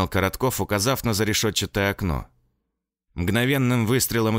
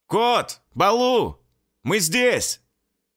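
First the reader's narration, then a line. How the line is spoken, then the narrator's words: Shouting again. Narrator (Russian): Снова закричал Семенов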